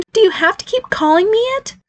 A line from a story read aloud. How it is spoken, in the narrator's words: whined